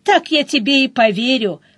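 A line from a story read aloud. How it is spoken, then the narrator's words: Chuckled. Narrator (Russian): хохотнула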